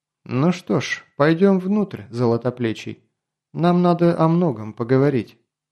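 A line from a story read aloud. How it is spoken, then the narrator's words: Calm woman. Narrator (Russian): Женщина спокойно произнесла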